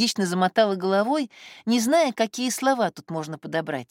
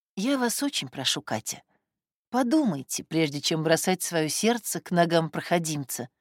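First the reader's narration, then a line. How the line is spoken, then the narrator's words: Soft and thoughtful. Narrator (Russian): продолжала Элеонора Сергеевна мягко и задумчиво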